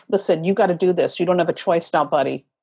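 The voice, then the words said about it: Authoritative New York-style tone. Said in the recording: “in that tone of voice ... that's exactly how the universe communicates its authority to me ... in true New York fashion”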